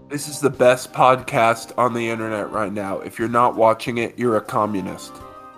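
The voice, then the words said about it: Imitates another person's voice. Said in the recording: “I love how he can do his voice. ... doing a perfect Kyle voice.”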